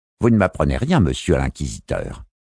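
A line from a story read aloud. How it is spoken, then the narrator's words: Curt dry retort. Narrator (French): répliqua-t-il d'un ton sec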